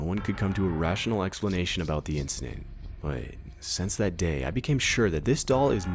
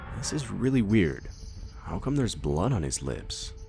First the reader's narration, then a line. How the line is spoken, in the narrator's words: My grandpa said in a confused voice